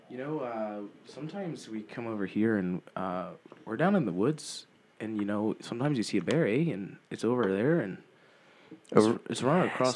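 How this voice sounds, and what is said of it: Put-on Canadian accent. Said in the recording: “Can we get a Canadian? ... What do Canadians sound like? ... Oh, you got to overpronounce the R's.”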